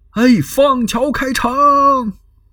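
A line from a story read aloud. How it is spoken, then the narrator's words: Shouting loudly from horseback. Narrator (Chinese): 刘备在马上大呼，他喊了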